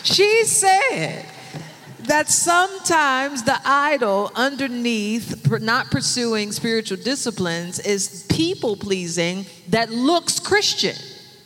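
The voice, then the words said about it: Pentecostal preacher-style voice. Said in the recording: “in my Pentecostal voice”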